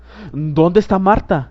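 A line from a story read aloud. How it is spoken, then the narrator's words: Exclaimed. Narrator (Spanish): exclamó Bob Cratchit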